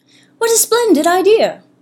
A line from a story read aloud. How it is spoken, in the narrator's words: the newest crow, Steve, piped in